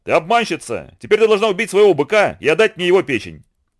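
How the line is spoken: Spider shouting. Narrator (Russian): паук закричал

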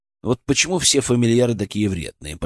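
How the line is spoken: Muttering under breath. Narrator (Russian): пробормотал я себе под нос

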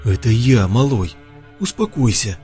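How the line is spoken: Near tears of joy. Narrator (Russian): Ваня чуть было не разрыдался от счастья

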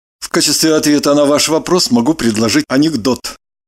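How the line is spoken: Plain. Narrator (Russian): сказал Кириллов

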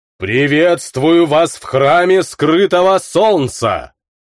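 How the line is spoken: Priest's roar. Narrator (Russian): взревел первожрец

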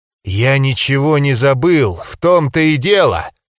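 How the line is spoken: Hissing. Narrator (Russian): прошипел мой друг

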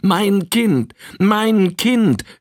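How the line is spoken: Mother wailing. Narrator (German): jammerte die Mutter

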